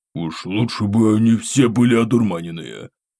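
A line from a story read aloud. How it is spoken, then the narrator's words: Displeased deep bass. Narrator (Russian): басил недовольно Круглов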